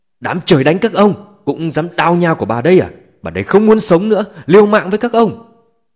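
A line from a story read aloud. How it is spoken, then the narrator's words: Frantic terrified screaming. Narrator (Vietnamese): nét mặt Chu Kim Hảo tràn đầy hoảng sợ, như phát điên ... gào thét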